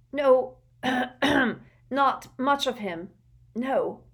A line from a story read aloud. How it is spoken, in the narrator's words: gasped Belby, his eyes streaming